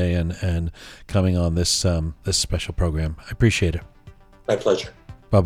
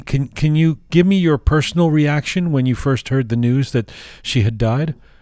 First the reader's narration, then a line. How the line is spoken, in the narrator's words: I cried